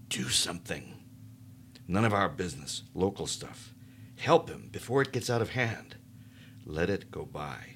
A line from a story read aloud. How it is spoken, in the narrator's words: whispered